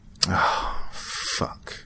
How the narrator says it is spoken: I groaned

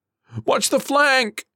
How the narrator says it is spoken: somebody yelled from her right, much closer

